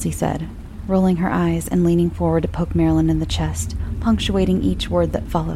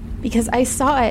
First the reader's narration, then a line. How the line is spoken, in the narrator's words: Marilyn said, her usually flat, relaxed voice spiking into a shout